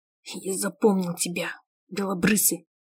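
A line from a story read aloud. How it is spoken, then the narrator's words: Through gritted teeth. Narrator (Russian): Цыди сквозь зубы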